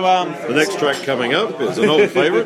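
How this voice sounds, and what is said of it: Radio announcer voice. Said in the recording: “put on your radio voice.”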